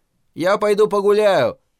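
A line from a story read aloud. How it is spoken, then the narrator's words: Shouted. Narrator (Russian): крикнул он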